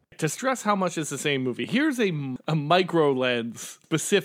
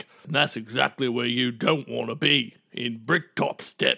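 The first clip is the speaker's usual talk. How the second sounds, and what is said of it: Attempted Cockney accent. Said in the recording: “which is the closest I can do to a Cockney accent. I know it's closer to the peon in Warcraft 3”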